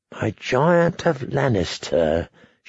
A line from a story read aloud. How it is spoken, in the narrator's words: murmured